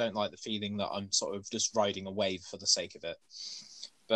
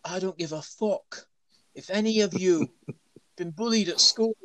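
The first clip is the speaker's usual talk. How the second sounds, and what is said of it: Poorly put-on accent. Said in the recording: “that's probably the worst accent you'll ever hear in your life ... I'd like to say it's accurate. I mean, it's close.”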